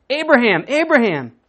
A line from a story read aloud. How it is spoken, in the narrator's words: the angel of the Lord called out to him from heaven